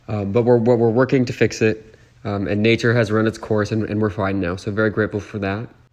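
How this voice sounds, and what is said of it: Congested, nasal voice like a cold. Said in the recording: “we're feeling better today, as you can hear... I just sound like I have a cold to the level that my voice normally sounds like I have a cold... I sound like I have a permanent sinus infection”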